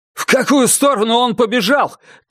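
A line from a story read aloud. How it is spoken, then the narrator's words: Shout. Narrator (Russian): крикнул он кому-то из стоявших рядом людей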